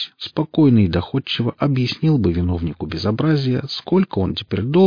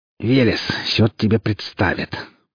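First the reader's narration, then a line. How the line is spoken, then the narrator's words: Girl hissing. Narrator (Russian): прошипела девушка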